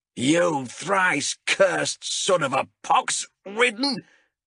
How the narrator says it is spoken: howled Azrek

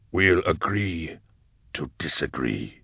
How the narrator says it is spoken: growled Eisenhorn

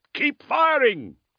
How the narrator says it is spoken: someone shouted

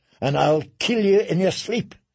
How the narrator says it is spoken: spat

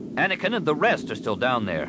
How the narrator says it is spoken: Solasar snapped

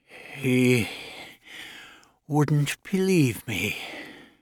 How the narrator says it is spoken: In a frail voice, Herman said

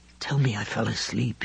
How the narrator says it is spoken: whispered hoarsely

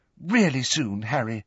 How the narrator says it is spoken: said Hermione earnestly

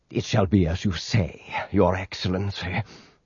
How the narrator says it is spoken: he murmured

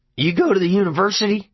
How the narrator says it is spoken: LeBay barked suddenly

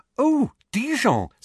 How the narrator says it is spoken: said Hermione excitedly

